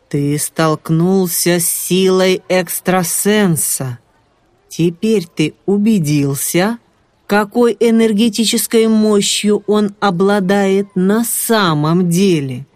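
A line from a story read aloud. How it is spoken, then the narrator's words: Menacing voice. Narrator (Russian): Ариман устрашающим голосом ответил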